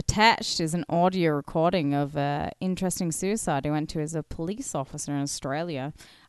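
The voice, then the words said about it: Fading put-on Australian accent. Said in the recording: “it's like the Aussie accent's fading”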